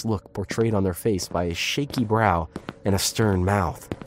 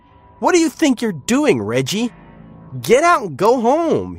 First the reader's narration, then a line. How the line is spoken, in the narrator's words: shouted with a slight shake in his voice